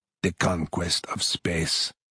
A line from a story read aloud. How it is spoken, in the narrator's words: breathed Colonel Borodoy